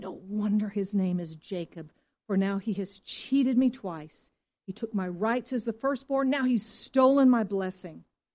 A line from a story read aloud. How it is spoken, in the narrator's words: Esau exclaimed